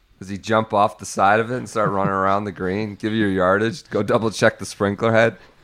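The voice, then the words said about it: Hoarse, worn-out voice. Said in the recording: “My voice is gone.”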